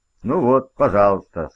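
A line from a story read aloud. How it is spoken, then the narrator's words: Calm. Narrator (Russian): сказал спокойно Сэм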